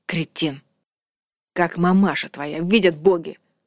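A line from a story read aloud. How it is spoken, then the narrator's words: Growled. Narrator (Russian): прорычал он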